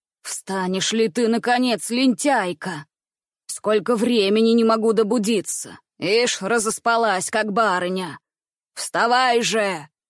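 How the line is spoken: Rough, harsh, hoarse. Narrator (Russian): Грубо и резко звучал его хриплый голос

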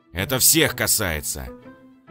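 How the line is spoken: Growled. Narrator (Russian): Прорычал капитан

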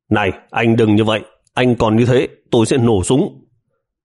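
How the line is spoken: Urgent tense shout. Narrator (Vietnamese): bảo vệ lại khẩn trương quát lên

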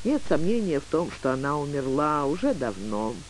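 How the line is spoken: Melancholy mutter. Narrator (Russian): меланхолично пробормотал

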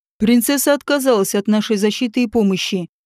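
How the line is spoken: Gruff, rough. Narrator (Russian): Огромный мужчина грубо заявил

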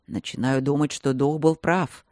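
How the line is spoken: Grumbling. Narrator (Russian): проворчал силуэт голосом Мартина

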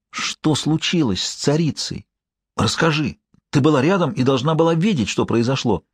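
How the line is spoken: Whispered. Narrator (Russian): я прошептал

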